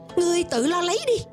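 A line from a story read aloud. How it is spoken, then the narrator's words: Sudden angry yell. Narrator (Vietnamese): Giả cẩu đột nhiên giận dữ thét to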